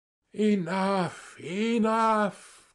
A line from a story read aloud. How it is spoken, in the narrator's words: cried Sverkov